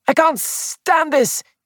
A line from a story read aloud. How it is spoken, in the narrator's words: he cried